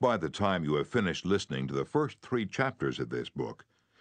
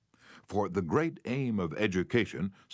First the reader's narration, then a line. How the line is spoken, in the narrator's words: said Herbert Spencer